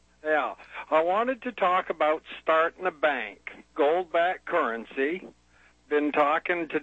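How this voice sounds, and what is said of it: Usual voice. Nothing is said of it.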